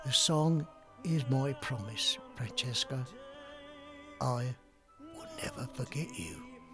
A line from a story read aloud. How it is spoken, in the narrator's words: as the tears filled his big blue eyes, softly said